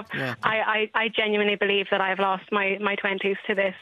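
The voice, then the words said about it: Choked-up, emotional voice. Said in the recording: “I'm getting a bit choked up.”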